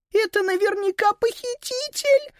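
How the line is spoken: Squeaking. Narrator (Russian): пропищала Сузи

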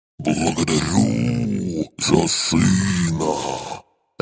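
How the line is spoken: Distant growling, whistling dragon. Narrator (Russian): Рычащий и одновременно присвистывающий голос дракона, вернее драконицы, доносился издалека

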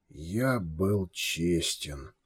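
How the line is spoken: Slow reply. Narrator (Russian): медленно ответил барон

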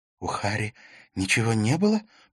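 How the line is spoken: Whispered. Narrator (Russian): прошептала Катрина

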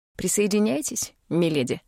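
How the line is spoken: Slightly mocking. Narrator (Russian): прозвучало чуть насмешливо

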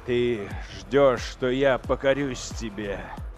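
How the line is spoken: Sudden growl. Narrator (Russian): Внезапно зарычал лорд-командор

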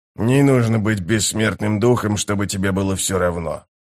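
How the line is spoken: Mutter. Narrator (Russian): пробормотал он

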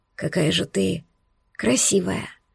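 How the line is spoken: Whisper. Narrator (Russian): шепнул Арман

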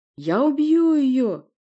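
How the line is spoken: Shrieking. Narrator (Russian): взвизгнул Порти

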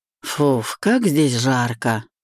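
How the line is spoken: Exhaled. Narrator (Russian): выдохнул Денис

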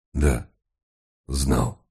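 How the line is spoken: Hoarse voice. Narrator (Russian): ответил комиссар хриплым голосом

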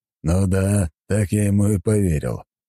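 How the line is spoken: Short chuckle. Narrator (Russian): хохотнул Дориан

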